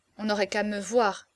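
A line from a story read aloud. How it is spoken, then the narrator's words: Murmur. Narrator (French): murmura-t-il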